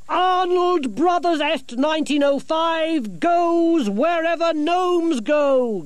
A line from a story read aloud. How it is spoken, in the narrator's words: Gerda shouted